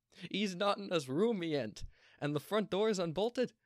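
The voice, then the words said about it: Put-on regional character accent. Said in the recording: “God, this accent.”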